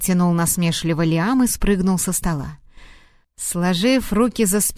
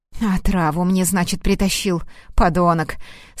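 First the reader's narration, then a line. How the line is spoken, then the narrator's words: Angry, through gritted teeth. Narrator (Russian): Сквозь зубы процедил Рейн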